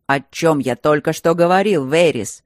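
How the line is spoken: Barking. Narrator (Russian): рявкнул Каспо

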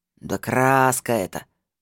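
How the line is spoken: Snorting retort. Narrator (Russian): фыркнул лохматый

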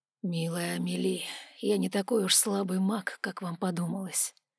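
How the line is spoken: Whispered close to ear. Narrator (Russian): прошептал Алан, склонившись к моему уху

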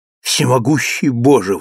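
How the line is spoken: Exclaiming. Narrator (Russian): воскликнул он

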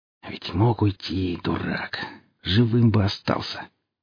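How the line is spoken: Vexed whisper. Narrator (Russian): с досадой прошептал я

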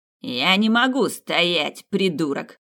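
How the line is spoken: Snapping retort. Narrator (Russian): огрызнулся Хоровиц

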